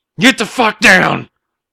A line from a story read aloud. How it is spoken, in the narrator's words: Wesley shouted